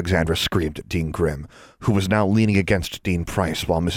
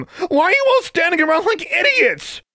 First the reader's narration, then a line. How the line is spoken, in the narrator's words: She shouted